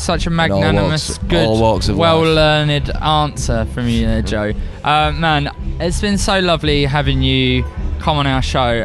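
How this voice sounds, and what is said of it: Essex-London accent with Cockney touches. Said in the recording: “Where's that accent from? ... on the edge of like Essex and London ... my old man's like a real Cockney, so there's quite a bit of that.”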